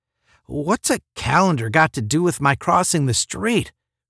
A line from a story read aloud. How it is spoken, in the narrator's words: Randolph asked in a pained tone